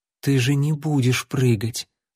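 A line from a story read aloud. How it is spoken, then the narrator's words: Anxious whisper. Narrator (Russian): с тревогой прошептала Лайла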